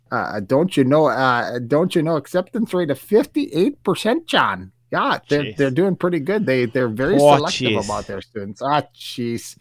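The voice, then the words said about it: Put-on Chicago accent. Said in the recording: “I'm going into a Chicago accent by accent.”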